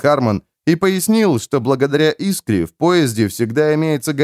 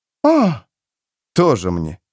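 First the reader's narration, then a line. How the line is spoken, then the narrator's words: Scornful snort. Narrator (Russian): фыркнул Джоакин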